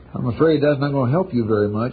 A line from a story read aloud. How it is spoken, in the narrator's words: Ed said dryly